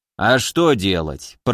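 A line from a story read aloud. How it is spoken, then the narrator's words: Grumbled. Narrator (Russian): проворчал Гавриил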